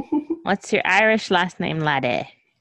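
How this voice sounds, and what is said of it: Poor put-on Irish accent. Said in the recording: “my Irish accent is awful”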